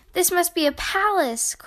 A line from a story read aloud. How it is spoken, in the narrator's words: Corduroy gasped